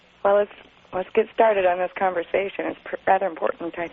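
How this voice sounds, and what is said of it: Hoarse, laryngitis-affected voice. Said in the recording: “pardon my voice. I still have a touch of laryngitis.”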